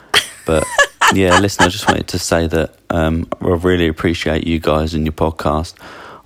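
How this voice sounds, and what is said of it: Southern English accent. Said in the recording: “Sorry it's not a sort of sexy French or Italian accent, just boring old Southern England.”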